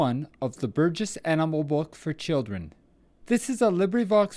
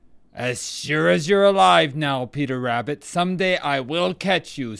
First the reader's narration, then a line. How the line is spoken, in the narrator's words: snarled Reddy Fox